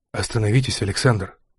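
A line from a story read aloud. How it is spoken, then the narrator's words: Whisper. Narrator (Russian): шепнул Мармеладов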